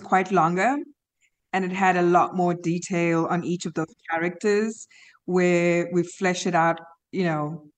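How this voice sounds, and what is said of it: Slight South African accent. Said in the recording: “You have a slight accent. You're from South Africa.”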